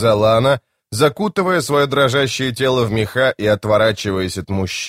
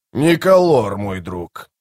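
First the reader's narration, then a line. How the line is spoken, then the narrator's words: Grumbling. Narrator (Russian): проворчал Кол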